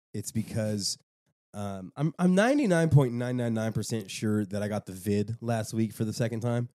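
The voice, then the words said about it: Stuffy, slightly odd voice. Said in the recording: “if my voice sounds a little weird, and I sound a little stuffy.”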